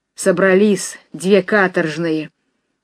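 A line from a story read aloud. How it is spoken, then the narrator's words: Sudden hoarse voice. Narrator (Russian): Вдруг хриплым голосом заговорила рыжая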